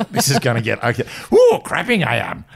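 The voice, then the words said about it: Yoda character voice impression. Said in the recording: “Why did we have to do a Yoda impersonation?”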